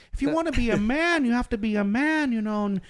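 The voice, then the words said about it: Imitates another person's voice. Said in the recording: “he talks like this ... That was like a very good impression.”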